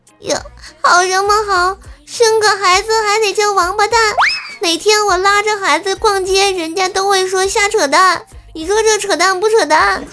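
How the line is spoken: Wailing. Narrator (Chinese): 小龙虾大哭

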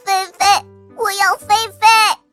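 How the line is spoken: Child crying and shouting. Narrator (Chinese): 弟弟就哭着喊着

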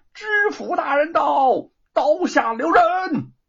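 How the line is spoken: Loud repeated shout. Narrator (Chinese): 有人再一次的高喊

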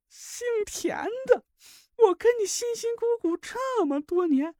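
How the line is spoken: Heartbroken wailing. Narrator (Chinese): 一记响亮的耳光在马兰脸上炸响，他撕心裂肺的哭嚎起来

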